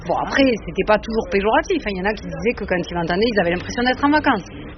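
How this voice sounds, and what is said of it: Southwestern French accent. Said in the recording (French): “moi je suis originaire du sud-ouest ... en soulignant ton accent”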